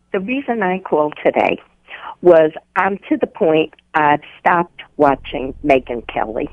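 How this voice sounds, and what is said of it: New York accent. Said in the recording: “You sound like a New Yorker that moved down to North Carolina ... you talk funny ... your accent has not left you”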